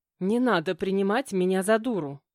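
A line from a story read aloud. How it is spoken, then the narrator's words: Snapping retort, woman. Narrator (Russian): огрызнулась женщина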